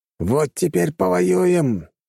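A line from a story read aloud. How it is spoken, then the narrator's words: Growl. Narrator (Russian): рыкнул он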